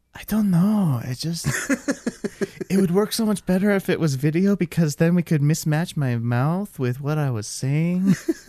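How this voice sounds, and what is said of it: Imitates another person's voice. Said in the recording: “doing a Tommy Wiseau impression”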